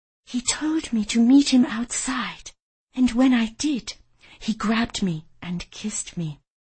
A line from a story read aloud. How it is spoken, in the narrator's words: She whispered